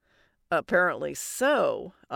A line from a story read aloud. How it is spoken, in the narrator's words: muttered